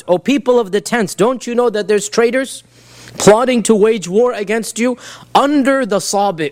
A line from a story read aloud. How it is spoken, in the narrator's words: they heard a loud voice scream out